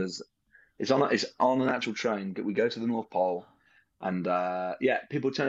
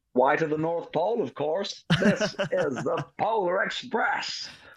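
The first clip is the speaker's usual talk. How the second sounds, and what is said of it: Imitates another person's voice. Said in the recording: “Is that your Tom Hanks impression?”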